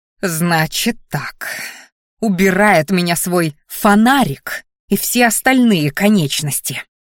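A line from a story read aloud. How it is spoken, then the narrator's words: Hiss. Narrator (Russian): зашипела она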